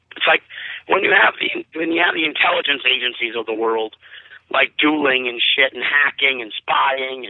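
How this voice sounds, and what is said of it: Hoarse, strained voice. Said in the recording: “I'm losing my voice a bit”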